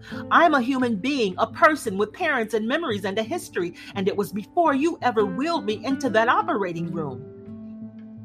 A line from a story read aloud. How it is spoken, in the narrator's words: to shout at him